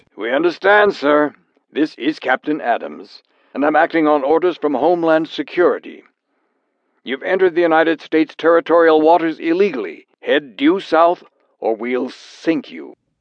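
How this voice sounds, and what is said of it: Dispassionate radio voice. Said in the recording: “The radio voice was dispassionate.”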